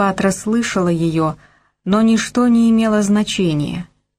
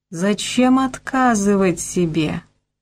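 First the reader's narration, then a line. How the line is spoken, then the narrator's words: Purring. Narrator (Russian): промурлыкал голос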